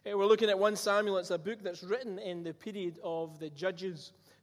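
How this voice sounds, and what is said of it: Scottish accent. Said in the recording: “a Scottish accent with Hebrew names never quite goes together”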